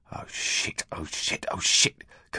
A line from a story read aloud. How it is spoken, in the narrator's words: Curly was muttering